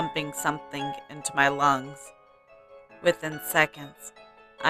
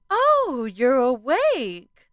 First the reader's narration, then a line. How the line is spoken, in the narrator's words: suddenly exclaimed